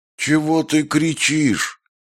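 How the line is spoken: Drowsy grumble, woman. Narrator (Russian): дремотно проворчала баба

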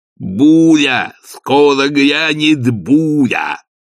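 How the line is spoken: Shouted. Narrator (Russian): крикнул Игорь

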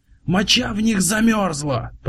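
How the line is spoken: Shouted. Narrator (Russian): прокричал голос

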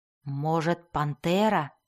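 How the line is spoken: Whisper. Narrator (Russian): шепнул Белвар Дзирту

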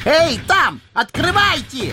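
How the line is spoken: Yelling. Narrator (Russian): орал он

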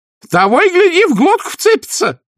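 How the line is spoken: Nanny's shrill wail. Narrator (Russian): завопила нянюшка

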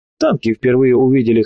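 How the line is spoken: Chuckle. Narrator (Russian): хохотнул доброволец

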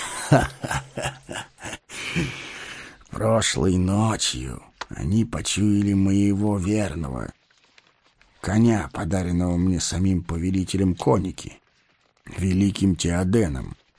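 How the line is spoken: Plain. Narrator (Russian): сказал он

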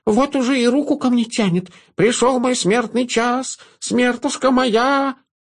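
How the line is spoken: Nasal horse voice, nose held. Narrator (Russian): Девочка схватила лошадь за нос, и та прогнусавила

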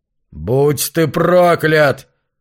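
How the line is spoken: Howling. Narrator (Russian): взвыл Марш

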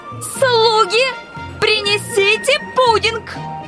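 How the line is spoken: Shouting. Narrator (Russian): крикнула

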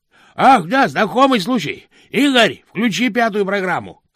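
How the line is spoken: Shouted. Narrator (Russian): крикнул Хьюберт

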